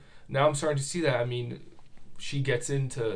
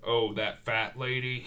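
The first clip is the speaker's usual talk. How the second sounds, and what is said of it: Imitates a movie villain's voice. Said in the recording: “I'm terrible at impressions. ... great Buffalo Bill impression.”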